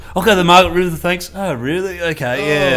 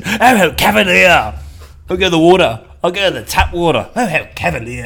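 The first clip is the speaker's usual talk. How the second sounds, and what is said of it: Put-on posh English accent. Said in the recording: “He's got to have an English accent.”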